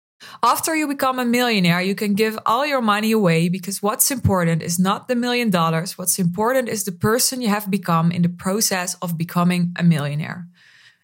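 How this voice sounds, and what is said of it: Broken English with Dutch accent. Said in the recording (Dutch): “gebrekkig Engels met Nederlands accent.”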